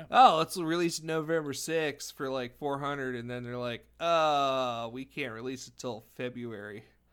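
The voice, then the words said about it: Laid-back surfer dude voice. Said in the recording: “I like how I went with the surfer voice”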